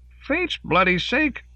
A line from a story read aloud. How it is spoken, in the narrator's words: Kaufman lost hold of his coffee cup and biscuit as he cried